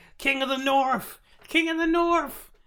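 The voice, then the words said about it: Attempted put-on accent. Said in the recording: “It's hard for me to do the right accent.”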